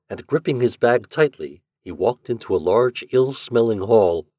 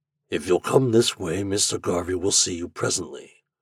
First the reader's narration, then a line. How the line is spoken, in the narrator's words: said the man gruffly